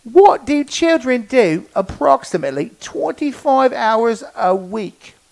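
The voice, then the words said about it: Put-on British accent. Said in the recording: “I'm going to keep talking British. ... an annoying British voice”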